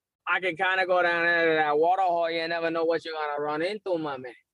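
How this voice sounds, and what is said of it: Put-on Louisiana accent. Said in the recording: “a good Louisiana accent”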